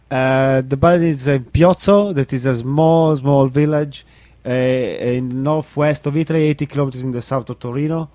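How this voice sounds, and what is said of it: Italian-accented English. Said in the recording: “he's got this great accent ... It's in Italy”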